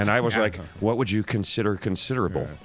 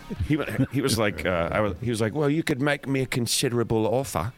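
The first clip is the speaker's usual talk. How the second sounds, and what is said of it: Put-on British accent. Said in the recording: “How do you do your British accent? ... That's pretty good.”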